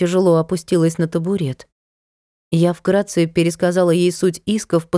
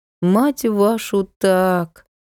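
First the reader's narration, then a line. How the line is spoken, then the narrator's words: Dejected. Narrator (Russian): уныло проговорила Надка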